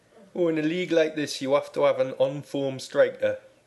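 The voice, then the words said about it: Fairly good Geordie accent impression. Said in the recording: “in a not bad Geordie accent ... That was quite good. That was a good impression.”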